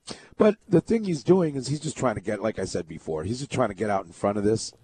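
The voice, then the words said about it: Strained, fading voice. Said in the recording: “excuse my voice. I'm just, it's going.”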